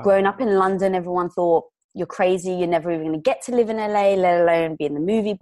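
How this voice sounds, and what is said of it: English accent. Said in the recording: “you may be able to tell from the accent, I'm not from around here. So I was born in England”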